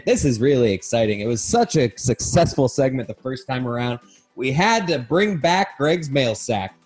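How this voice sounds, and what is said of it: Game show host announcer voice. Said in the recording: “putting on my host announcer voice ... You do have your announcer's voice.”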